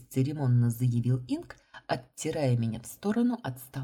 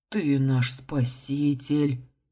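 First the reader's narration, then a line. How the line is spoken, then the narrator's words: Breathless exhale. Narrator (Russian): выдохнул капитан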